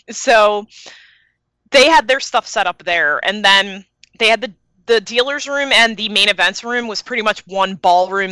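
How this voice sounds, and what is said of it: Philadelphia accent. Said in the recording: “I have a really sexy accent ... I came from Philly”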